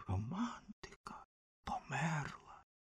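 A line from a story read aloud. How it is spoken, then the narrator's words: Whisper. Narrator (Ukrainian): вогняний фонтан шепотів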